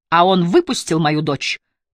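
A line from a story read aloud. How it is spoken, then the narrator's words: Loud. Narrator (Russian): произнес Томас так же громко, как его друг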